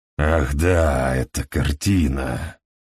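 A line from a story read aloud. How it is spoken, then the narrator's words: Growled. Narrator (Russian): прорычал Хедли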